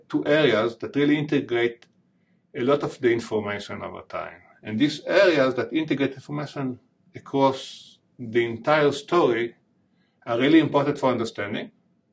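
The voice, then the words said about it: Heavy foreign accent. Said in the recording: “my heavy accent”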